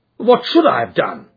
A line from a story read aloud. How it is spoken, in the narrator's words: cried with some heat